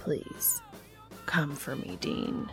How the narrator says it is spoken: whispers

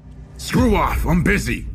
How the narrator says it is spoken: growled

